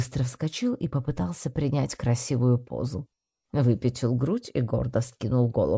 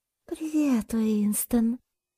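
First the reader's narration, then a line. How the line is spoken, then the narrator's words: Affectionate greeting. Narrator (Russian): ласково поздоровалась Одетта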